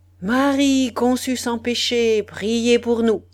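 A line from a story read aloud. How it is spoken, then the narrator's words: Priest's thundering shout. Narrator (French): criait le prêtre de sa voix tonnante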